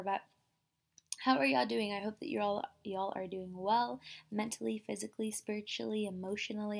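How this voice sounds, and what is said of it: Quiet, lowered speaking voice. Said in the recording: “I'm not really whispering, but I am talking lower than usual”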